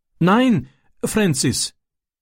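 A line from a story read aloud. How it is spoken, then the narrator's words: Pleading. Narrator (German): flehte er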